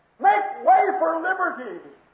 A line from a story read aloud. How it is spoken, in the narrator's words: he screamed